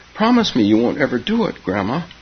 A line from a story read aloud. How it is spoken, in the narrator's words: pleaded Keza